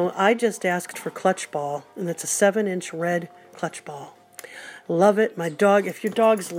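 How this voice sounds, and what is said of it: Usual voice. Nothing is said of it.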